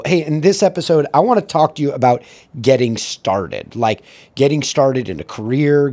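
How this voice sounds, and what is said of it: Worn-out, strained hoarse voice. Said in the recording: “You can tell my voice is friggin' cooked from working the stage and training people”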